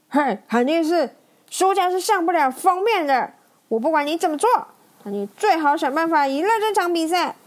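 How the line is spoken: Shouting loudly. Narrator (Chinese): 路霸大喊大喊着

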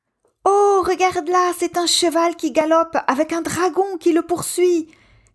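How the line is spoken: Captivated exclamation. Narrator (French): s'exclame Pablo, captivé par cet écran géant animé

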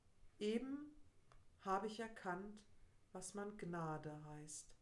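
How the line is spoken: Sad. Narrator (German): sagte traurig

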